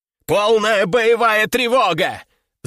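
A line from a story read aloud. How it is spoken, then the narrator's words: Yelling over loudspeaker. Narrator (Russian): заорал оператор на весь корабль, пользуясь общей системой оповещения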